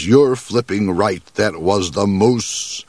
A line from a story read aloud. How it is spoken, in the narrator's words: he growled